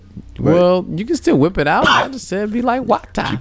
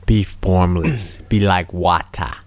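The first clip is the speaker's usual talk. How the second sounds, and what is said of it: Bad put-on Jamaican accent. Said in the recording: “this terrible Jamaican accent.”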